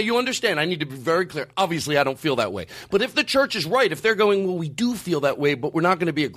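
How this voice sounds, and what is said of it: Usual voice. Nothing is said of it.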